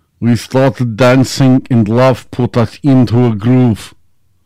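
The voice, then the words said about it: Put-on Russian accent while singing. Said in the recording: “I'll do this in a cold Russian accent.”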